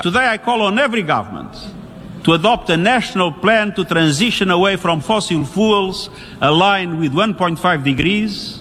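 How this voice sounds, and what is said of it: Strong foreign accent. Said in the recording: “the accent's a little rough ... I'm just prepping you for the accent”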